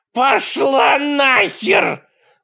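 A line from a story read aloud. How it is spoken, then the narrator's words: Yelling. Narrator (Russian): заорала Кэтлин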